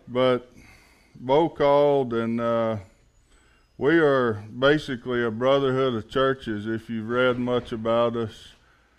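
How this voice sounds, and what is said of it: Slow Alabama Southern accent. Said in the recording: “I guess y'all can tell, since y'all got an accent, I'm not from around here. ... I'm actually from Alabama. I'm not from Texas. I talk slower than most Texans do”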